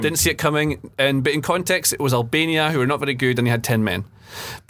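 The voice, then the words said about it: Very Scottish accent. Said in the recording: “someone with a very Scottish accent”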